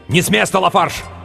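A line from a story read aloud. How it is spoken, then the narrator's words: Shouting, several voices. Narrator (Russian): Они кричали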